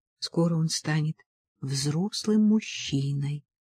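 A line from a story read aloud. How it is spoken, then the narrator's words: Whisper. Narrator (Russian): прошептала Жанетта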